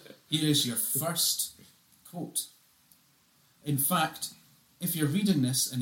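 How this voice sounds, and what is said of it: Usual voice. Nothing is said of it.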